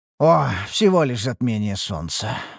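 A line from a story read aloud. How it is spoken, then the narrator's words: Breathed out. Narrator (Russian): выдохнул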